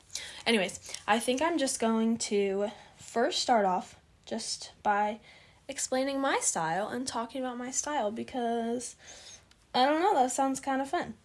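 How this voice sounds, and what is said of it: Tired, slightly raspy hoarse voice. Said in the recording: “my voice is so tired. So, sounds a little raspy, a little hoarse.”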